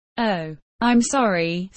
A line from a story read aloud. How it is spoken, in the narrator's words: said Dave again